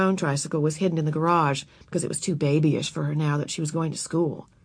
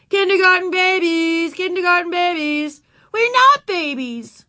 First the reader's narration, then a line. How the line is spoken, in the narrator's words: Ramona yelled back